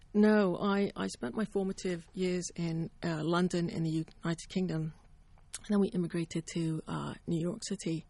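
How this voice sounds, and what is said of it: British accent. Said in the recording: “you have a British accent.”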